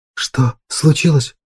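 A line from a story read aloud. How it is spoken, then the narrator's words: Girl's dry-lipped whisper. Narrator (Russian): прошептала девушка пересохшими губами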